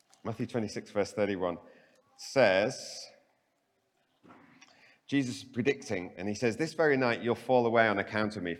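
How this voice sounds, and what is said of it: Slight Canadian accent. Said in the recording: “I've got a bit of a Canadian accent going on”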